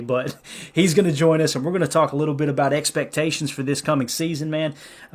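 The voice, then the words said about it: Redneck accent. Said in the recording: “this redneck accent”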